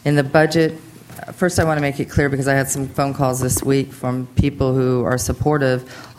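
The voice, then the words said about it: Strained, failing voice from illness. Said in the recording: “I'm not feeling well, and I feel like I'm losing my voice”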